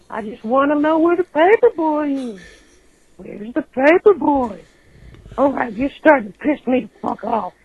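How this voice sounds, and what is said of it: Old man cartoon character voice. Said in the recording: “Herbert from Family Guy ... The old guy”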